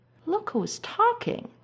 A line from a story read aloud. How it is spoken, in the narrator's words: Styles scoffs